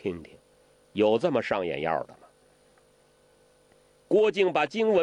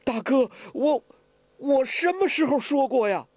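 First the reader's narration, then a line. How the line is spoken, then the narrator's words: Shocked trembling. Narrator (Chinese): 郭靖大惊啊，颤声地说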